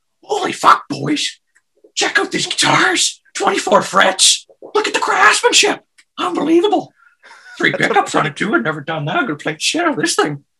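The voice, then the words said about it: Impression of Bubbles from Trailer Park Boys. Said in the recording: “That is a damn good Bubbles impersonation.”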